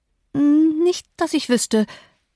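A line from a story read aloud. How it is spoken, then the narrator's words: Stammering. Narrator (German): stotterte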